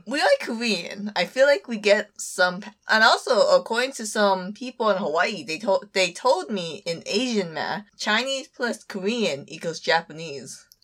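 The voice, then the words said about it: Singaporean-sounding accent. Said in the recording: “A lot of people think I sound like I'm from Singapore. ... It's something with the accent”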